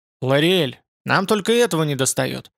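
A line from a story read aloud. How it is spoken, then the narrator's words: Irritated. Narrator (Russian): Дреймер сказал раздраженно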